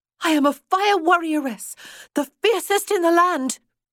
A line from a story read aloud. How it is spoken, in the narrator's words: gasped